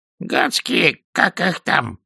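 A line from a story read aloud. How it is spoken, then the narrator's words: Hoarse wheeze. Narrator (Russian): прохрипел он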